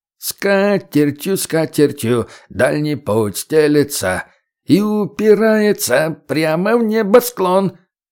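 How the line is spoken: Nasal reply. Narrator (Russian): гнусаво ответили

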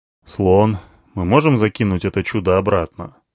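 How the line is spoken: Gloomy question. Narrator (Russian): спросил я, мрачно глядя на Алиану

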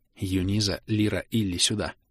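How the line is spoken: Barely audible call. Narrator (Russian): Позвала Элинса так тихо, что мог уловить только острый слух дриад

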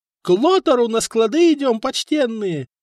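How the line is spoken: Shrill squeal. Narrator (Russian): визжал все тот же рыжий мужичок

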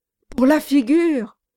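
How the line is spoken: Bitter sneering repetition. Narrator (French): répéta Samson Brass avec un ricanement amer

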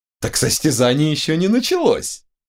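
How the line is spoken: Giggling. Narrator (Russian): хихикнул Ванар

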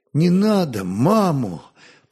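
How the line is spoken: Pleading, frightened. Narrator (Russian): просительно испуганно проговорил он

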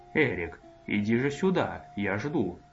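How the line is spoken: Fairly affectionate. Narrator (Russian): Барон достаточно ласково произнес

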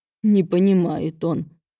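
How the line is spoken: Through gritted teeth, enraged. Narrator (Russian): процедил Велес сквозь зубы, зверея на глазах

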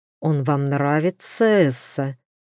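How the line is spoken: Through gritted teeth. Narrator (Russian): процедил сквозь зубы герцог

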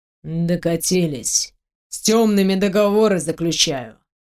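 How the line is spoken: Muttered. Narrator (Russian): пробормотал мужчина

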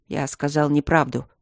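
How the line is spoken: Gruff mutter. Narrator (Russian): буркнул он

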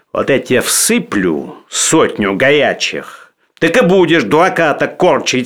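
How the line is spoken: Stern. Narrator (Russian): сказал Денисов строго

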